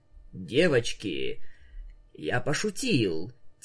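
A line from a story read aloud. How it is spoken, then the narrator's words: Very quiet stunned mutter. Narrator (Russian): тихо-тихо пробормотал совершенно ошарашенный Рабидус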